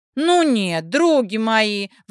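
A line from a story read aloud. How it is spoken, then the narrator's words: Wailing, flushed from heat. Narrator (Russian): взвыла раскрасневшаяся от июньской жары Улька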